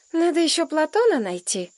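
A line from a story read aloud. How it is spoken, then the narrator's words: Sighing. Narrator (Russian): вздохнула Женька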